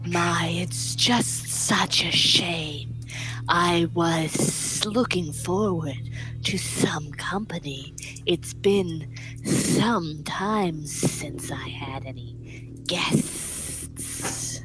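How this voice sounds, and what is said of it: Higher-pitched lizard character voice. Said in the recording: “a different lizard accent than Gobi's ... It's slightly higher pitch”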